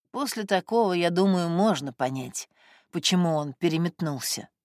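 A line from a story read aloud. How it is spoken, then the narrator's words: Quiet. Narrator (Russian): сказал Костя тихо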